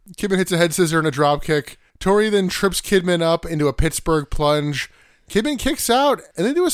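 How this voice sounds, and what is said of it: Usual voice. Nothing is said of it.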